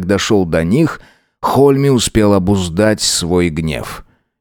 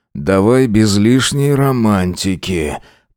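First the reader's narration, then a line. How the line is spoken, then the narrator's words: Muffled grumble into pillow. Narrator (Russian): проворчал уже в подушку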